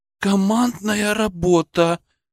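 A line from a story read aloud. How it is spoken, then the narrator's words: Admiring breathy exclamation. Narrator (Russian): восхищенно выдохнула Белочка Борисова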